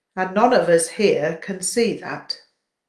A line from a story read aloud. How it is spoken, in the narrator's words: he sighed